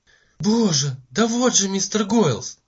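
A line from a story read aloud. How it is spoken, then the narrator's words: Delighted exclamation. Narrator (Russian): воскликнул в восторге мисс Таррент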